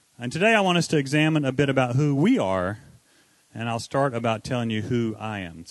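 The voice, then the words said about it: North Carolina Southern accent. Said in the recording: “Can anybody tell by my accent? ... I was born in North Carolina”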